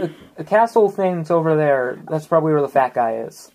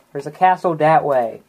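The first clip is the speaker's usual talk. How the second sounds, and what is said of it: Childlike voice. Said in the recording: “Why did I sound like a kid?”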